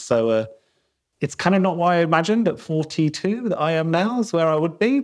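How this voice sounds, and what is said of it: South London accent. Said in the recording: “I'm South London born and bred, as you can probably tell from my accent.”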